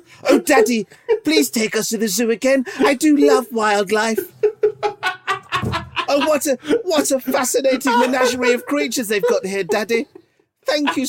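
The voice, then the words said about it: Posh, prim child's voice. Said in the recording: “a little dick voice ... That's a kid's voice, like the Famous Five.”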